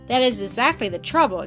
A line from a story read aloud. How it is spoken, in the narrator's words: exclaimed Catherine decidedly